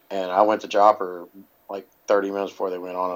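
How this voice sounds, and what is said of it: Hoarse, partly lost voice. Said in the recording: “I lost my voice. Still ain't got it all back.”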